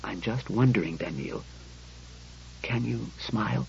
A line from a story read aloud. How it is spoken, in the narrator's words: He spoke in a casual whisper